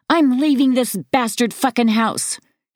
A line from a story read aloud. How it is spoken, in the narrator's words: screams